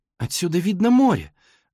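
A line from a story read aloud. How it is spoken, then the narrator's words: Exclamation. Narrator (Russian): воскликнула Мэри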